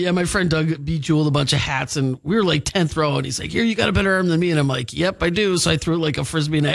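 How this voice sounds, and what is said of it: Usual voice. Nothing is said of it.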